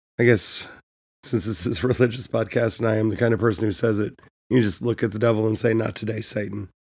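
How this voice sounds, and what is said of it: Sick-sounding voice. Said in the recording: “sorry for my voice ... Got sick ... my voice would be better, but as you can tell, it's not”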